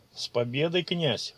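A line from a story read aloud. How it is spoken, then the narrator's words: Wry snort. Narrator (Russian): хмыкнул Ичиро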